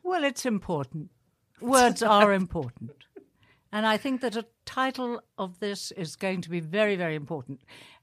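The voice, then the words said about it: Fake British accent. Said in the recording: “Very convincing fake British accent”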